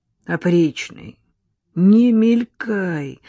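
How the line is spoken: Pained pleading. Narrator (Russian): взмолился Ананасов, мучительно морщась

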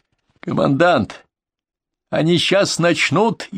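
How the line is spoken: Alarmed shout, young man. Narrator (Russian): тревожно крикнул молодой Брюгель

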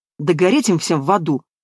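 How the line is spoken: Angry retort. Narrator (Russian): зло бросила Яна

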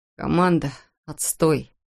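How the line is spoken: Strained, forced words. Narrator (Russian): выдавил Эндрю

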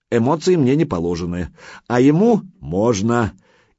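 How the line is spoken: Good-natured chuckle. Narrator (Russian): добродушно хохотнул

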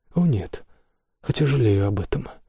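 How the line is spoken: Sighing king. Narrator (Russian): вздохнул пиковый король

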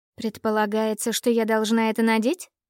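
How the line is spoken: Skeptical snort. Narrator (Russian): Скептически хмыкнула я

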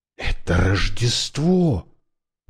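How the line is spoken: Whisper. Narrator (Russian): прошептал Брайан

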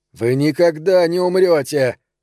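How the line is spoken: Sudden shout. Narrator (Russian): внезапно крикнул

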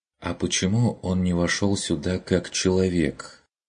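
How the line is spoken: Quiet, hesitant question. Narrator (Russian): Тихо, несмело спросила Мария Дишер

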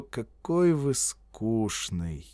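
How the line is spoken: Drawling. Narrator (Russian): протянул Торренс

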